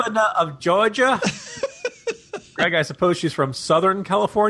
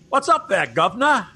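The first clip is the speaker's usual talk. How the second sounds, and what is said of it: Put-on Cockney accent. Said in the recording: “a Cockney accent”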